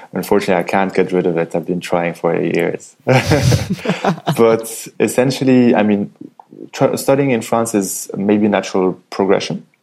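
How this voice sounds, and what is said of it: French-influenced accent in English. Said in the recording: “Morocco is also a French-speaking country, and that's probably, you can probably hear it in my accent”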